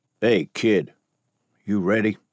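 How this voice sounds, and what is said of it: Deep drawling voice. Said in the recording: “a deep drawl”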